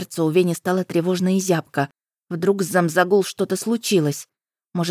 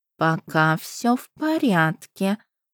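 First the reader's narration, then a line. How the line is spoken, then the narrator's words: Purring. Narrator (Russian): промурлыкала Пашт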